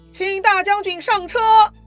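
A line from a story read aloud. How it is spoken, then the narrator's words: Loud shout. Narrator (Chinese): 袁绍 大声喊道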